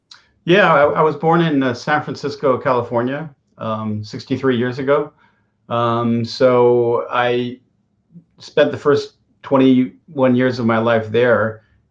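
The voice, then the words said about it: American accent. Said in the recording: “I can see that you're American guy, American accent.”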